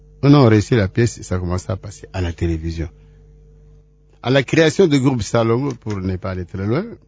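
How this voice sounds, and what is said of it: West African accent. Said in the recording (French): “cet accent ouest-africain que vous avez, c'est à cause du théâtre ou bien c'est inné, c'est naturel?”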